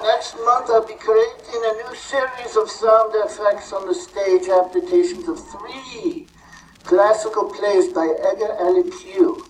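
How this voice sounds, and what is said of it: Interesting put-on foreign accent. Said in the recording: “that's a very interesting accent you've got. Are you Italian?”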